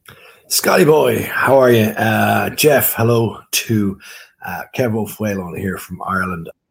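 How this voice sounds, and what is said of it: Irish accent. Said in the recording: “I love the accent... a little bit of a Galway accent there. Oh, he's a Dubliner from way back, or, you know, maybe County Cork... it's a wonderful accent.”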